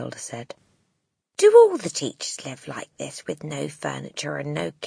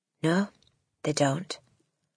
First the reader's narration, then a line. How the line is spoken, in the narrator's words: Miss Honey said rather stiffly